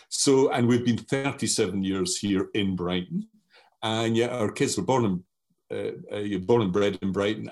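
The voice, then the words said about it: Strong Scottish accent. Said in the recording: “I have a strong Scottish accent”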